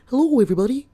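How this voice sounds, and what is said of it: Kermit the Frog-like imitated voice. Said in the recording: “a horrible, horrible impersonation of her ... She sounded like Kermit the Frog.”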